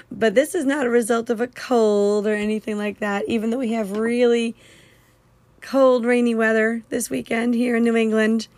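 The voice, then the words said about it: Hoarse, weakened voice. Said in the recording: “you can hear from my voice, which sounds a lot better than it did even this morning ... I lost my voice”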